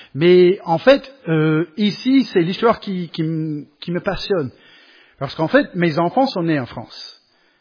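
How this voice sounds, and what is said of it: Non-native foreign accent in French. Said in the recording (French): “je suis pas né en France. Je travaille le plus possible de perdre mon accent et bon, ça, j'arriverai jamais, je crois.”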